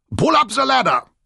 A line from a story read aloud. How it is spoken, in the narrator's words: Graf Otto shouted